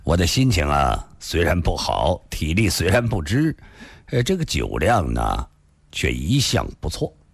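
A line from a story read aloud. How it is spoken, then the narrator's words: Faint smile. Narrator (Chinese): 李寻欢淡淡地笑了笑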